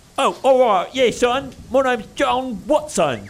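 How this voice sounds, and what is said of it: Hip old-timey British accent. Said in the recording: “Can we get a hipper British accent? ... Like, still old-timey British accent, but a little more hip.”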